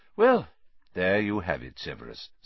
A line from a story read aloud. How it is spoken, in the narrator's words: said Dumbledore calmly